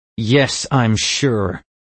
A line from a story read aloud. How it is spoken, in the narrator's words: I snarled